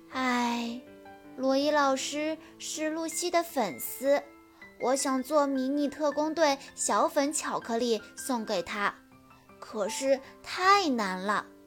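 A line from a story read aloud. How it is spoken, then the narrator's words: Sighing. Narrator (Chinese): 秀智叹着气说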